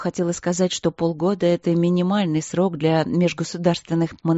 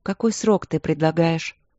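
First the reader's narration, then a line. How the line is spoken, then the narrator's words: Calm question. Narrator (Russian): спросила Василина спокойно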